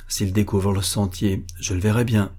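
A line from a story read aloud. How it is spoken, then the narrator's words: Murmured. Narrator (French): murmura-t-il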